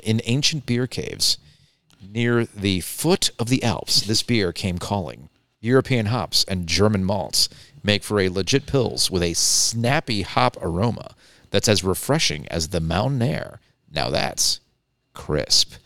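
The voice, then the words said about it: Smooth radio announcer voice. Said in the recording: “he has a good radio voice.”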